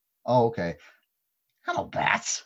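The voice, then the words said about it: Joker character voice. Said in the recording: “you have to be the Joker because you can do the voice.”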